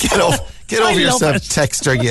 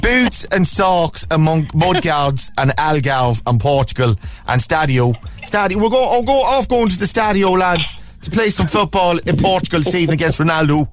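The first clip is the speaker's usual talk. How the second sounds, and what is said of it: Put-on Dundalk Irish accent. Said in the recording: “that stupid Dundalk accent? It is not one bit funny ... I'm going to end up doing the whole Dundalk accent all morning.”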